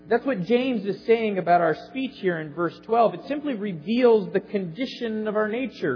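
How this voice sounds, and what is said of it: Midwestern American accent. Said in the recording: “you're from the Midwest ... my accent gives me away”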